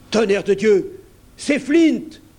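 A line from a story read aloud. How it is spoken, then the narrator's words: Exclaimed. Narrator (French): s'écria Mary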